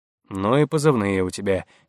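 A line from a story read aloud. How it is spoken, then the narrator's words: Quiet remark. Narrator (Russian): негромко заметил Крушунович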